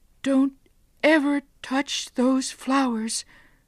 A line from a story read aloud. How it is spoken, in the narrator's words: she cried